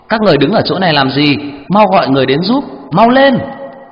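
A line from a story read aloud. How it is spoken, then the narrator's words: Loud urgent question. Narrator (Vietnamese): lớn tiếng hỏi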